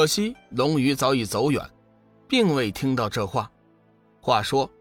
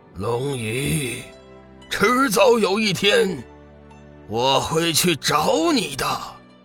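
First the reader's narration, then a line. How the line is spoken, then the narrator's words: Distant roar. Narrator (Chinese): 弱水河边传来一声咆哮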